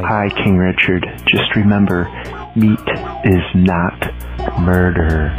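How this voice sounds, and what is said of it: Menacing, murderous-sounding voice. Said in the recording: “in a murderous voice”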